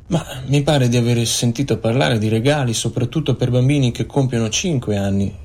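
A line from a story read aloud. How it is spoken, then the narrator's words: Plain. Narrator (Italian): rispose Penny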